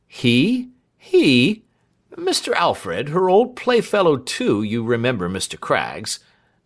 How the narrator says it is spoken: said Snitchey, with a disconcerted laugh

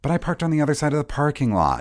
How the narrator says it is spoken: Delman whined

